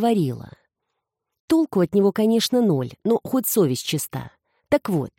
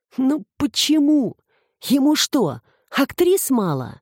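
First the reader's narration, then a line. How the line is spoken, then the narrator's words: Groaning, jealous young man. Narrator (Russian): простонал молодой ревнивец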